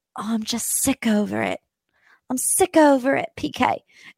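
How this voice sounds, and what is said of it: Attempted Dorit Kemsley mixed accent impression. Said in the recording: “I can't do the Dorit accent because it's like 12 different accents in one. I promise I'm trying.”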